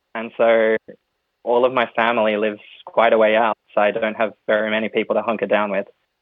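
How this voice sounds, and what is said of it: Australian accent. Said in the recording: “as you can tell probably from the accent, I'm not originally French. My mom's French, but I grew up in Australia.”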